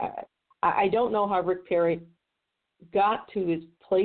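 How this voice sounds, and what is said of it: Usual voice. Nothing is said of it.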